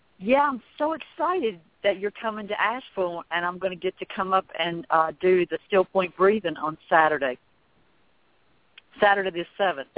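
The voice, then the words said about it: Southern American accent. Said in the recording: “We love your accent. Your accent is so Southern, but it's so different from Jeannie's”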